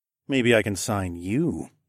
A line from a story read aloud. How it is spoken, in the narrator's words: I purred